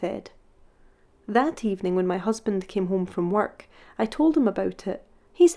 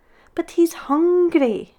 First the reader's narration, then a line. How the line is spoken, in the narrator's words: whined